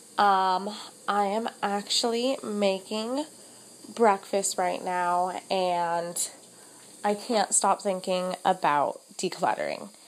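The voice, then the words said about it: Slightly off, congested-sounding voice. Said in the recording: “my voice sounds a little extra funny ... I'm just getting over a cold”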